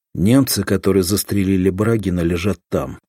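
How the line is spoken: Calm. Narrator (Russian): спокойно сказал уполномоченный

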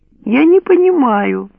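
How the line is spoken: Offended tone. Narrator (Russian): обиженно сказала Патти

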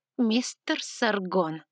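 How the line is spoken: Through clenched teeth. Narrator (Russian): стиснув зубы, процедила я

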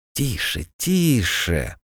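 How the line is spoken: Hissing. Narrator (Russian): Зашипели на него

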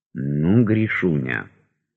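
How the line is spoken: Whisper. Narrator (Russian): шепнул Восторгов

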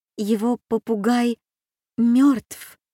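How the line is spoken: Barely breathed, weak. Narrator (Russian): еле выдохнула бедная Аня

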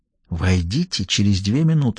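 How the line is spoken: Whisper. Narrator (Russian): шепнул ему Даффи

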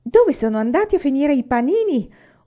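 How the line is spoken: Shouting. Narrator (Italian): urlò Michael

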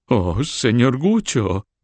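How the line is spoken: Lady exclaiming. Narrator (Spanish): exclamó la señora

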